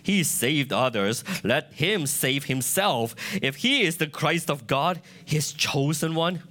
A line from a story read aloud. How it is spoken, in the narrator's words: But the rulers scoffed at him, saying